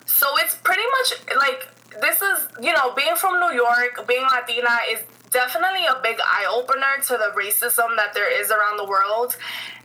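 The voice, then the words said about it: Latina speaker's non-American accent. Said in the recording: “I'm a light skinned Latina, like when people hear my accent, they kind of just know like, oh no, she's not, she's not like white, she's not American”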